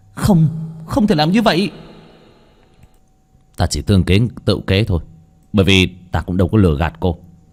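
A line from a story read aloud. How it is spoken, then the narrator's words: Shouting. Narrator (Vietnamese): hét lên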